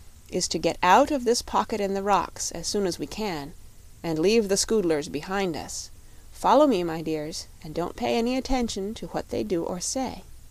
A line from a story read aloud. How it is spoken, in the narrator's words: said the shaggy man to his friends, in a low tone